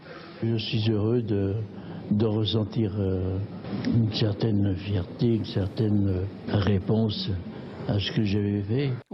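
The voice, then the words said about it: Sing-song southern French accent. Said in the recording (French): “La cuisine du Sud, bien entendu, on l'entend à cet accent chantant qu'il avait”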